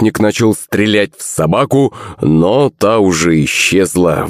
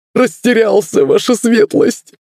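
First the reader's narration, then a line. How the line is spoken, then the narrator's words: Sharp cry. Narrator (Russian): вскрикнул Семен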